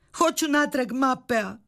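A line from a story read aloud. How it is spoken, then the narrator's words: Shouting. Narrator (Croatian): vikala je Sofija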